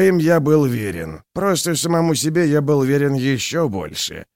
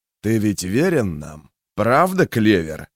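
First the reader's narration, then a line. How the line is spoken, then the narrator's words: Quiet, insinuating. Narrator (Russian): тихо проговорил Магвир, так, словно в этих словах таилась какая-то изумительная ловушка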